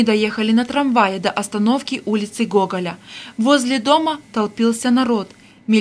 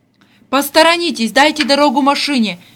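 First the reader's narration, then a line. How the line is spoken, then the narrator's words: Shouting policeman. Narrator (Russian): кричал милиционер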